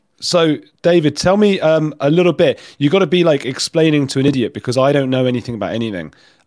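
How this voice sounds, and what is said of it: Congested voice with a cold. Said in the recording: “I've got a cold, ... I keep muting my mic to cough”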